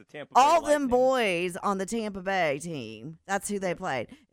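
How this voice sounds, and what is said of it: Southern American accent. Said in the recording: “It's my southern accent.”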